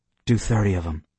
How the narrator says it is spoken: he mumbled in a bored voice

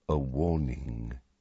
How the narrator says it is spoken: Dumbledore said very quietly to the bird

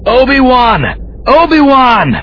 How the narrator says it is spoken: Someone was shouting

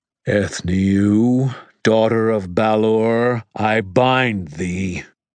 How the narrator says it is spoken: in that deep, echoing voice, called

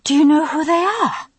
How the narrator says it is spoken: I panted

